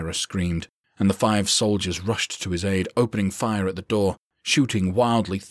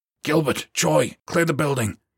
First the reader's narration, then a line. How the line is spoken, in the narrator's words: Herrera barked